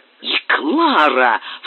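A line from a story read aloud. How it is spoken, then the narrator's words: Hollow muffled cry. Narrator (Russian): вскричал он глухим голосом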